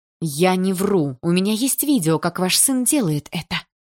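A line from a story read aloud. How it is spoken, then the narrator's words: Quiet, turning furious. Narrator (Russian): Тихо сказала Полина, и нежность сменилась яростью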